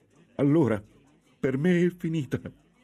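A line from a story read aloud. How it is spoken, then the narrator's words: Nun sobbing in despair. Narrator (Italian): singhiozzò la monaca, disperata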